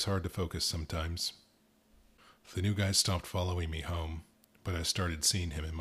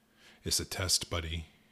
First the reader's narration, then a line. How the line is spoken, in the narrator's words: he said